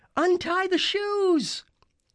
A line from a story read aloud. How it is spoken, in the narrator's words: Annabeth shouted